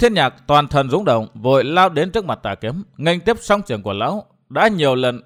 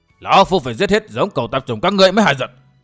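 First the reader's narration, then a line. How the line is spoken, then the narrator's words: Harsh shouting. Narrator (Vietnamese): tiếng quát tháo của tà kiếm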